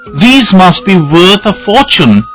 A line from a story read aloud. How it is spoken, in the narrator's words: she exclaimed